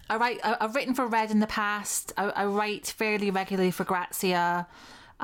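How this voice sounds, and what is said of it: Scottish accent. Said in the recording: “I'm Scottish.”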